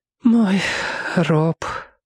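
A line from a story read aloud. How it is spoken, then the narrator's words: Whisper. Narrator (Russian): прошептала она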